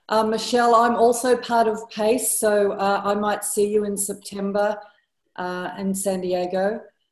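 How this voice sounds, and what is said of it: Australian accent. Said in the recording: “obviously, with our accent, we're from Australia”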